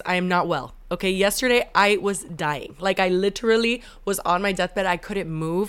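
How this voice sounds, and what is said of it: Sick-sounding voice. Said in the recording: “I'm coming to you live with strep and COVID-19. I don't know if you can hear it in my voice.”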